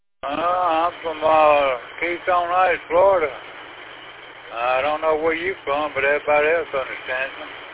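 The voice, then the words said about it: Southern US accent. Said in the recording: “Which part of the South are you from, old man?”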